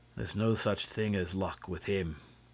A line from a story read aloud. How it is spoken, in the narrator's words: declared the inspector, who always spoke of Lupin in a solemn tone